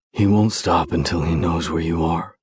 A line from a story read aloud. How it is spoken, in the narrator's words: he says with a raspy tone